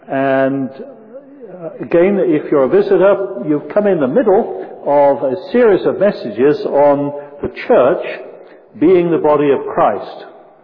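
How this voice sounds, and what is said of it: British accent. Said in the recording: “I grew up across the pond, as you may notice from the accent”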